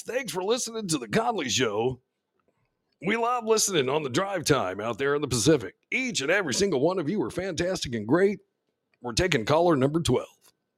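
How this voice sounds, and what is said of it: Radio DJ voice. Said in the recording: “It's got my radio voice.”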